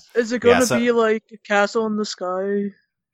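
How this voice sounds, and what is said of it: Generic internet dude voice impression. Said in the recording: “That was my general like internet dude impression.”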